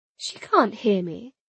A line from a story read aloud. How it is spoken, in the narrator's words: Mirella replied calmly